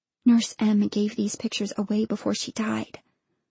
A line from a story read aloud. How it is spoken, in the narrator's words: Lyra whispered